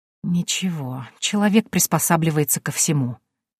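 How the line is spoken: Whispered. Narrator (Russian): прошептала я

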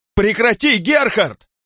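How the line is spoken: Shouting. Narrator (Russian): кричала Петра

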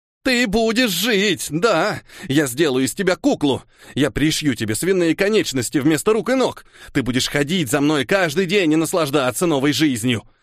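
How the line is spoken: Hysterical shouting. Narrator (Russian): Истерично кричал Иутул

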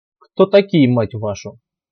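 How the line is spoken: Young man's smirking grunt. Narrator (Russian): Еще раз хмыкнул довольно молодой командир сталкерской группы

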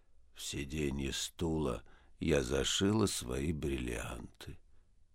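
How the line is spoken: Wooden, indifferent voice. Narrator (Russian): Клавдия Ивановна деревянным равнодушным голосом сказала

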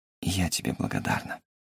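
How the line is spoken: Soft whisper. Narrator (Russian): Томи тихо шепнула

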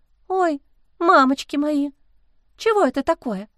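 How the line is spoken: Trembling voice. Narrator (Russian): кто-то дрожащим голосом произнес

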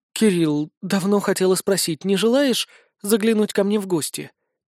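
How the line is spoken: Soft young woman's whisper. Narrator (Russian): тихо прошептала девушка

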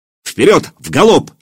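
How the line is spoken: Shouting. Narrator (Russian): закричал Илья

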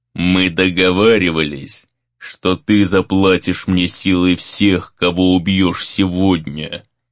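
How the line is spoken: Low rumbling voice. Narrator (Russian): произнес Безликий низким ракочущим голосом

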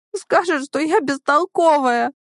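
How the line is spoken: Sobbing slightly louder. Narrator (Russian): Зая всхлипывает чуть громче

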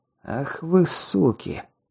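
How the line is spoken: Muttered. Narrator (Russian): пробормотал

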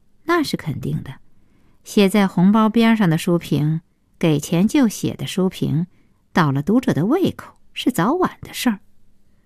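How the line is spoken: Cold retort. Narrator (Chinese): 顾小西冷冷的接茬说

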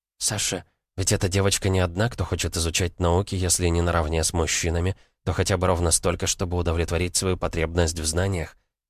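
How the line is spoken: Quiet. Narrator (Russian): тихо сказала она

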